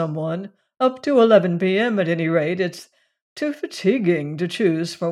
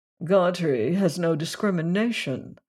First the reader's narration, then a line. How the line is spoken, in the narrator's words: murmured Tinling